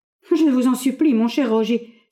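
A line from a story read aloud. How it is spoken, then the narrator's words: Exclaiming. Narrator (French): s'écria Frédéric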